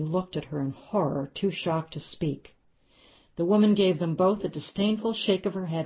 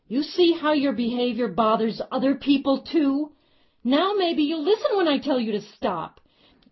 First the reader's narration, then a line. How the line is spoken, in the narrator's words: she yelled loudly for the benefit of those who were watching